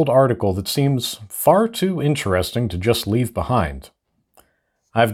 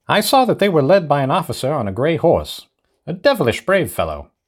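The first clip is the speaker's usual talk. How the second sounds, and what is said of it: Old-timey radio announcer voice. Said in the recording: “I read them in an old-timey radio announcer voice.”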